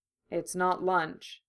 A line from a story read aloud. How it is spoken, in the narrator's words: Harry said quietly